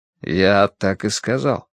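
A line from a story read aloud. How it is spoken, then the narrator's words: Quiet reply. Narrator (Russian): тихо ответил принц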